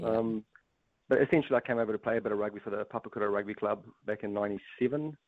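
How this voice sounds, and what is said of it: Slight South African accent. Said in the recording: “you've obviously got a bit of an accent ... your journey from South Africa to New Zealand”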